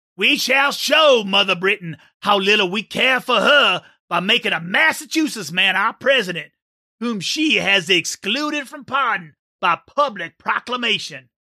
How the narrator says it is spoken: I exclaimed

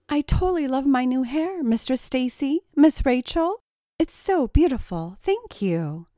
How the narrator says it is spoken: said Tracy in his most feminine voice

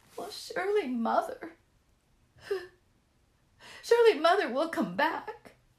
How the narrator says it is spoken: sobbed the turkey

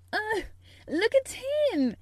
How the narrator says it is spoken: exclaimed Mary

